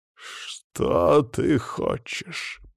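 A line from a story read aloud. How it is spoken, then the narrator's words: Angry growl. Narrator (Russian): прорычал Вельцин, сжимая дрожащие кулаки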